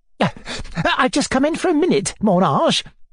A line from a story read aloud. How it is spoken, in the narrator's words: she panted